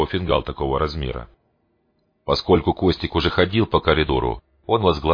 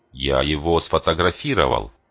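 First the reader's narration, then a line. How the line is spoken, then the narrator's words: Plain. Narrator (Russian): сказал Ван-де-Мейр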